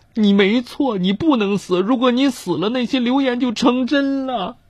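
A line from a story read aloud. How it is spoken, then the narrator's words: Crying. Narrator (Chinese): 我的孩子们哭着说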